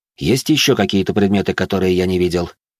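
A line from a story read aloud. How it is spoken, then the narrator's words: Plain. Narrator (Russian): спросил я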